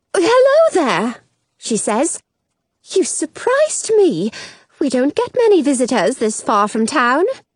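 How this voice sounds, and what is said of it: British accent like Mary Poppins. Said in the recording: “She has an accent that makes her sound kind of like Mary Poppins. British.”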